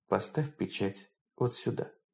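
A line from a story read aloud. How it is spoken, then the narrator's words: Calm woman. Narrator (Russian): Женщина спокойно произнесла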